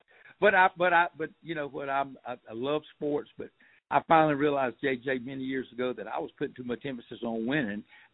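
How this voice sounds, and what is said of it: Southern US, rural Georgia accent. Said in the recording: “as you can tell from ... accent, he is from South Georgia ... Real South, out in the country, South Georgia.”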